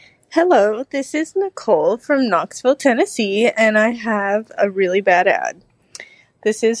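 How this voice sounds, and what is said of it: Usual voice. Nothing is said of it.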